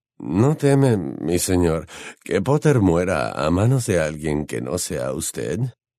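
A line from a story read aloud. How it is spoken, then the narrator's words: Trembling question. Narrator (Spanish): preguntó Malfoy con voz temblorosa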